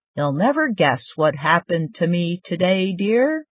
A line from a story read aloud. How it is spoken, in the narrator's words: he said